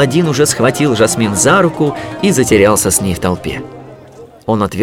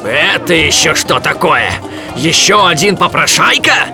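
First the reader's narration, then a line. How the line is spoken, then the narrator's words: Merchant roaring. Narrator (Russian): взревел торговец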